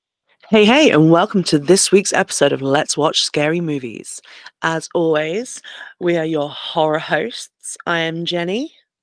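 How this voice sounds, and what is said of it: Husky, sick-sounding voice. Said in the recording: “in case you haven't already made out from my voice, we're sick ... husky, sexy voice ... My husky, sexy, sneezy”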